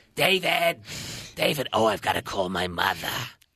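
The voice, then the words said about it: Imitates another person's voice. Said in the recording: “It's a really good impression.”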